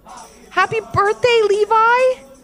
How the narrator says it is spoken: called out Ivy, his mom, and his dad

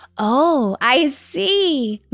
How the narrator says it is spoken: Matilda laughed

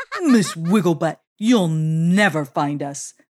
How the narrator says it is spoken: they shouted

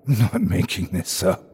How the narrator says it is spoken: I hissed

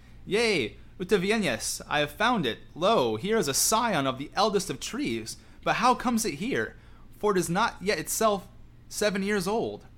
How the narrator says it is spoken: Then Aragorn cried

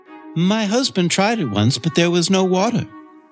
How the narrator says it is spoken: said sadly

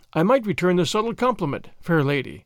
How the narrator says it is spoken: he said

